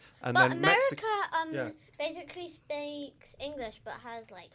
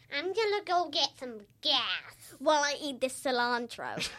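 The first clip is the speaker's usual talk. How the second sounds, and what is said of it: Put-on American accent. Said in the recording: “I love your American accent.”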